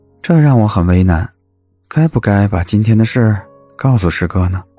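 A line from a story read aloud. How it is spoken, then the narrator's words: Flat, indifferent tone. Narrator (Chinese): 叶慕辰 淡淡的说了一句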